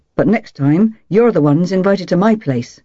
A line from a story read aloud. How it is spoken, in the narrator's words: he said firmly